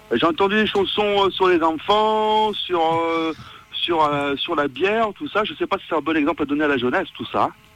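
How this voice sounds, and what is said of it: Speaks with a noticeable accent. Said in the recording (French): “Il est bien ton accent.”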